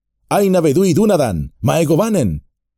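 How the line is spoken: Shouting. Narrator (Spanish): corrió hacia él gritando

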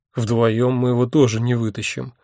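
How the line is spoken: Gloomy. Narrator (Russian): мрачно сказал я

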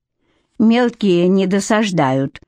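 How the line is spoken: Dry, suppressed dislike. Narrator (Russian): сухо проинформировала его Кейт, подавляя свою неприязнь

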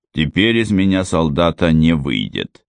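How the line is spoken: Gloomy. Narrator (Russian): мрачно промолвил Анджело

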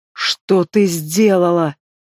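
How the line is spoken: Beastlike growl. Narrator (Russian): Голос его стал походить на рычание зверя

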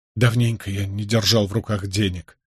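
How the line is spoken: Sighing. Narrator (Russian): вздохнул он

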